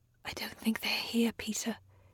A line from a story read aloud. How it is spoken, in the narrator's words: she whispered